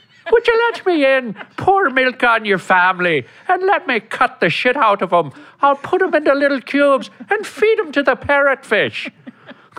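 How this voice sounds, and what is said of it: Irish Lucky Charms leprechaun voice. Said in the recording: “your Irish, it goes to the right? ... Oh, Lucky Charms ... over here, we got Lucky”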